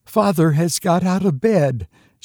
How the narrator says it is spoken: she gasped out

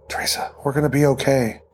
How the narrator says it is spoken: She didn't know what to say, or even if she should, but whispered

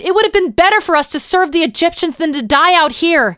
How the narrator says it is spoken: the people turned to Moses and cried

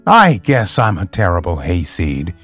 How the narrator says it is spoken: she said between her little gulps and sighs

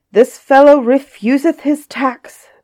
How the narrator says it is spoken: the tax collector cried

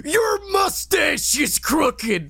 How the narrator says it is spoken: screams

